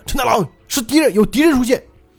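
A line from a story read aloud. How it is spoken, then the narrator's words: Shouting back. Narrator (Chinese): 于是波波就回头喊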